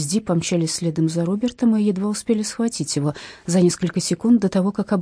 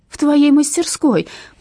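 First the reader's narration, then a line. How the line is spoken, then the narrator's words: Shouted. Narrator (Russian): прокричала Скарлетт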